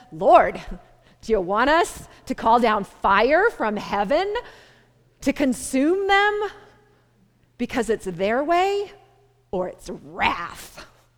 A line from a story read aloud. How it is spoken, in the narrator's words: James and John eagerly ask Jesus